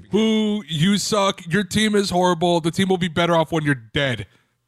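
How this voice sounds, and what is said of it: Mock angry sports fan voice. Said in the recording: “let me impersonate Detroit fan here”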